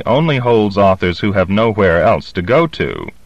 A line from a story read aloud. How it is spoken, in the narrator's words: said bitterly